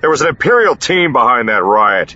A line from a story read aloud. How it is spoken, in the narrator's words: Han said stiffly